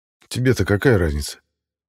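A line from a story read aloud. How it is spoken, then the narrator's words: Snapping. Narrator (Russian): огрызнулся я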